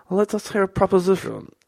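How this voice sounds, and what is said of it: Poor put-on Croatian accent. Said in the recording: “my Croatian accent's terrible”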